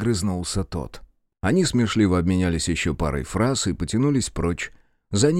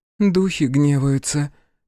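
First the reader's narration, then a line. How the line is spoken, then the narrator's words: Woman's heavy sigh. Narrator (Russian): тяжело вздохнула женщина в углу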